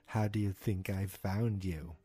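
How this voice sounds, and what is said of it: Imitates a character's voice. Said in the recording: “That's my Brenner impersonation.”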